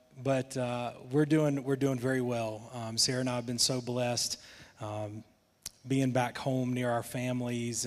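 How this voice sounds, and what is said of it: Thick Southern American accent. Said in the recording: “My accent's probably gotten a little thicker. ... I'm in the South”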